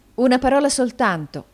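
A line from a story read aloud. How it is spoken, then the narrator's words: Exclaimed. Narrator (Italian): esclamò Nicola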